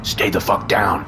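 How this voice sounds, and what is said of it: Deep shouting male voice. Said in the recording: “a deep voice shouted at me”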